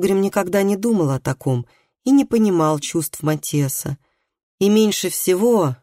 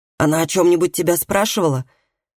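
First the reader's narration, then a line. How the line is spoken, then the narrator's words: Sharp question. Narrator (Russian): резко спросил Колгрим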